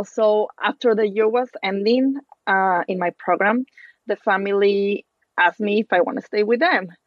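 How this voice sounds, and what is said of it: Non-native English accent. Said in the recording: “my English was really bad. As you can tell, you know, I still have an accent. That accent is not gonna go away”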